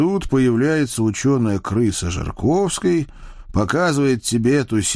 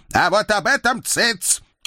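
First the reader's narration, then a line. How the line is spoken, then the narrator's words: Embarrassed barking. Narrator (Russian): рявкнул мой денщик, краснея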